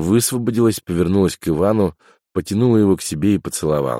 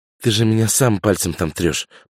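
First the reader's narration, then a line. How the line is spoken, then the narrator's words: Whispered. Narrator (Russian): прошептала Няша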